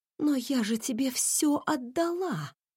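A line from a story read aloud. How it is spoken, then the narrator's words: Whisper. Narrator (Russian): прошептала Лидия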